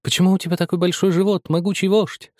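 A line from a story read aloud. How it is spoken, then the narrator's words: Thin sweet little voice. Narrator (Russian): спросила Марипоса Мимоса тоненьким прелестным голоском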